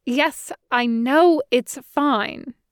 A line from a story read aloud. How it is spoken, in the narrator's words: Rati snapped, a little harsher than was characteristic